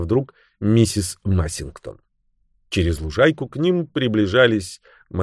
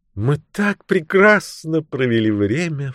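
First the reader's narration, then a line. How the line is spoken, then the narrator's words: Exclaimed. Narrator (Russian): воскликнула она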